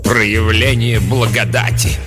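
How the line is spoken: Contemptuous snort. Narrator (Russian): презрительно фыркнула мать-настоятельница

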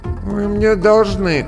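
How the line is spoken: Sleepy mumble over phone. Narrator (Russian): сонно пробормотала она по телефону

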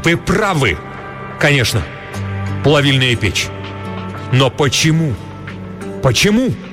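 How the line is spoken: Sudden shout. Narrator (Russian): Вдруг он крикнул

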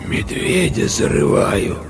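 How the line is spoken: Sudden hoarse reply. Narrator (Russian): вдруг ответила девочка таким хриплым голосом, что капитан вздрогнул

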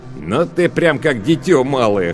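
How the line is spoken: Short chuckle. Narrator (Russian): хохотнул Лавен

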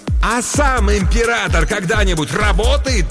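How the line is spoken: Triumphant yell. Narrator (Russian): торжествующе заорал Крокет

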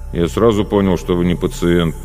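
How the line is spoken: Grumbling. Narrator (Russian): продолжал бурчать Звеняев

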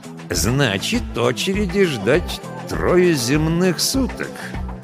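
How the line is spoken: Ominous voice. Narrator (Russian): нехорошим голосом уточнил он

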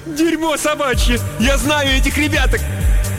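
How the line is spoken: Shouted. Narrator (Russian): Гресса прокричала

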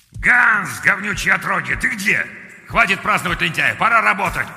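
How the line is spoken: Growled. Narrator (Russian): прорычал Клаус

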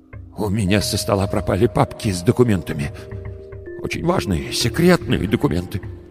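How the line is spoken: Trembling voice. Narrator (Russian): дрожащим голосом сказал

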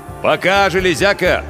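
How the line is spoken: Belated shout. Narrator (Russian): запоздало крикнул Хванг

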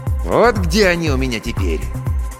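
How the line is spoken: Plain. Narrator (Russian): сказал Бу Стас

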